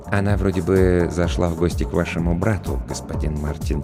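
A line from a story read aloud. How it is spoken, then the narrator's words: Quiet reply. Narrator (Russian): тихо ответил Роджер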